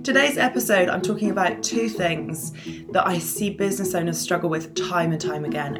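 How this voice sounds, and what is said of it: Hoarse, strained voice. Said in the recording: “I'm losing my voice a little bit”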